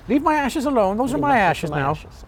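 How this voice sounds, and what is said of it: Put-on Irish accent. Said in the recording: “always doing this accent.”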